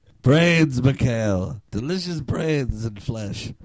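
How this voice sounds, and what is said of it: Zombie character voice. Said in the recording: “Can you tell what I was imitating? ... these things that we call zombies”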